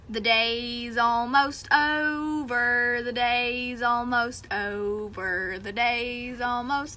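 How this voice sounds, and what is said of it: Sung in bad Southern accent. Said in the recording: “please excuse my bad Southern accent.”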